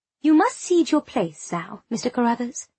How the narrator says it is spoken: said in a charming tone that brooked no opposition

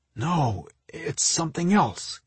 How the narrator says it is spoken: he replied in a puzzled voice

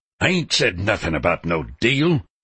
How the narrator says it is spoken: Pender declared harshly

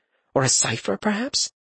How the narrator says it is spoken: Istvan chuckled softly

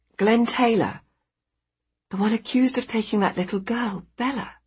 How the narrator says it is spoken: she says quietly to one of the paramedics

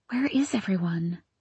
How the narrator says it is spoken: I whispered, glancing around fearfully

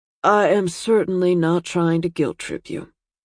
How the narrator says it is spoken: his dad said dryly

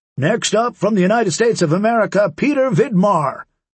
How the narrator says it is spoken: cup his hands around his mouth, and in his best announcer voice say

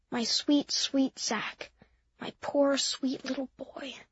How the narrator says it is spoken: Mimi whispered into my hair

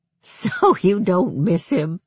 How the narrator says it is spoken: asked, relieved

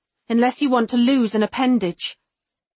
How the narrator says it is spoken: I snarl at him

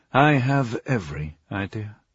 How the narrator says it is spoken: Dreyfus said, cutting him off gently

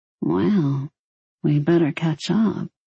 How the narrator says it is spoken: she muttered

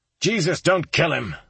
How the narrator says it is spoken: I shouted

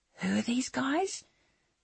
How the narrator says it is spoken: Someone whispered

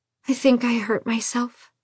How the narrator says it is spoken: she whispered

